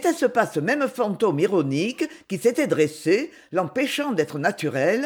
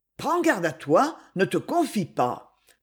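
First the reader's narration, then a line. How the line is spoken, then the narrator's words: Inner murmur. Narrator (French): murmurait en elle le souvenir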